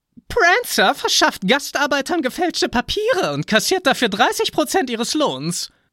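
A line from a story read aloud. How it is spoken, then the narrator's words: Sharp tattling voice. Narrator (German): petzte Dasher mit spitzer Stimme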